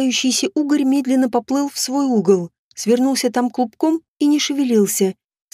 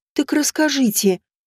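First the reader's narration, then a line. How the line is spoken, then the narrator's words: Sighing. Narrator (Russian): вздохнула я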